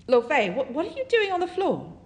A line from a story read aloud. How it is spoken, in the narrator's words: Detective Ye yells